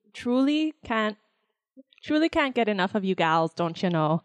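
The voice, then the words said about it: Heavy put-on Minnesotan accent. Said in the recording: “In a heavy Minnesotan accent. ... I was going to try to do the accent”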